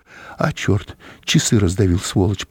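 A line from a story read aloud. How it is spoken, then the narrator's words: Muttered. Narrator (Russian): пробормотал он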